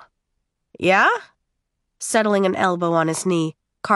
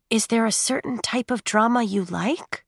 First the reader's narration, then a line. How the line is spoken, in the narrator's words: Kate whispered